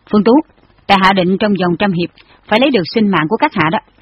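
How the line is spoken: Cold. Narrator (Vietnamese): Lý Hằng Thu lạnh lùng hỏi

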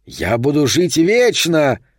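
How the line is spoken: Booming shout. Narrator (Russian): кричал вулкан

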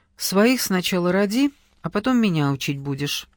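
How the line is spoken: Cold cutting retort. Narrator (Russian): холодно припечатала она

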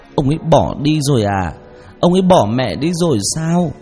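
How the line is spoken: Sobbing. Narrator (Vietnamese): Rồi bật khóc nức nở

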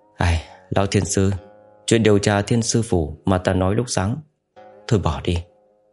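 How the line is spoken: Sighing. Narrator (Vietnamese): Thẩm Hào thở dài nói

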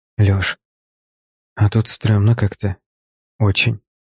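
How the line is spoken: Whisper. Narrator (Russian): прошептал

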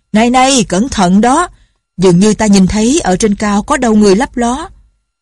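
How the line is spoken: Shouting. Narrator (Vietnamese): Lệnh Hồ Xung la lên

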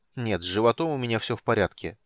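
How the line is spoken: Irritated reply. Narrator (Russian): раздраженно отозвался Танис

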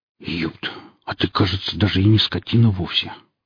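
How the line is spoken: Muttering. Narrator (Russian): пробормотал сталкер

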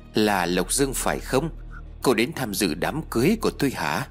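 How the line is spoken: Sneering question. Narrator (Vietnamese): cô ta khẽ nhếch miệng cười khẩy rồi hỏi tôi

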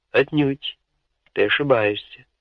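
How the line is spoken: Plain. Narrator (Russian): ответил Бертрам Каннинген

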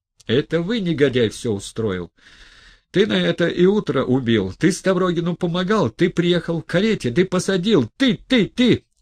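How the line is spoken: Sudden furious shout. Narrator (Russian): вдруг вышел из терпения и в бешенство закричал Петру Степановичу

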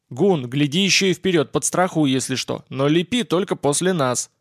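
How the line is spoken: Bark. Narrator (Russian): рявкнул Боб

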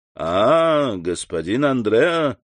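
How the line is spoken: Half-mocking tone. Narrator (Russian): сказал тот своим обычным полунасмешливым тоном

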